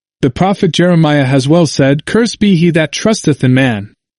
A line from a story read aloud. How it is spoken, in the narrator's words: the wretched Muchli exclaimed